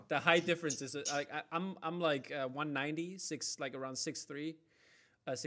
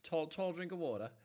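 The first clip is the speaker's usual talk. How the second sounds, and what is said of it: Attempted put-on accent. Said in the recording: “What accent was that? ... I don't know. I tried.”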